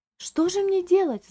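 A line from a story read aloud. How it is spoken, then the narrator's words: Agitated exclamation. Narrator (Russian): взволнованно воскликнула дама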